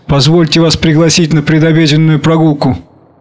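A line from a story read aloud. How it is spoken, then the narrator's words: Laughing. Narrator (Russian): смеясь, говорит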